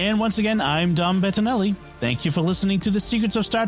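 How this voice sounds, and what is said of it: Usual voice. Nothing is said of it.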